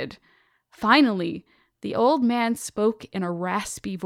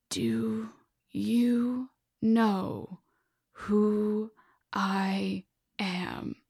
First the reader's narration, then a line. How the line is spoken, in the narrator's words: said slowly, chewing on every word that escaped his throat